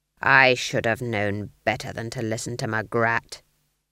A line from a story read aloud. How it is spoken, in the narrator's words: growled Nanny